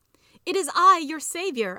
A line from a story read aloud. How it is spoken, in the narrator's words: I yelled